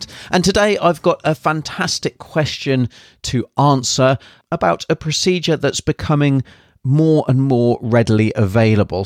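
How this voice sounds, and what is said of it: British accent. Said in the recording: “originally from the UK, as you can probably tell by my accent.”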